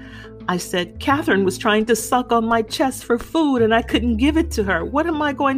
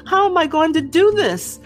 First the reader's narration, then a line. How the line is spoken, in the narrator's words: I cried